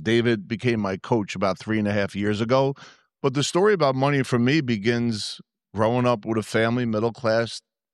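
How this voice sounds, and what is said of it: New Jersey Yankee accent. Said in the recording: “I am from New Jersey. I do have a Yankee accent.”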